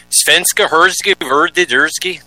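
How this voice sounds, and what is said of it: Mock Swedish chef gibberish voice. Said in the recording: “that's my attempt at Swedish. I just made it. It was the Swedish chef I was imitating.”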